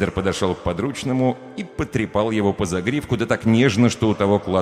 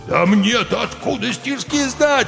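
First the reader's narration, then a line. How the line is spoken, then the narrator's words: Howling. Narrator (Russian): взвыл Сидор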